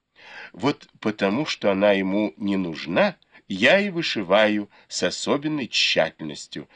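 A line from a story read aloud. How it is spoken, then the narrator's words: Plain. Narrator (Russian): сказала Сижень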